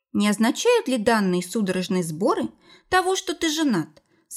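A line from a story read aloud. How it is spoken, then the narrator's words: Perfectly calm question. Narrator (Russian): совершенно спокойно спросила его Майя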